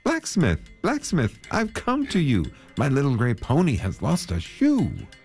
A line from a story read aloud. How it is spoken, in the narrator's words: he called out to him